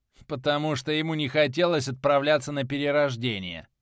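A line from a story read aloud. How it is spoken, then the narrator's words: Sarcastic remark. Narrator (Russian): ехидно произнес техник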